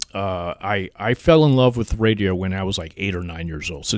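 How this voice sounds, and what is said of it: Polished radio announcer voice. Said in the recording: “you definitely do have the radio voice, though. You can just hear it.”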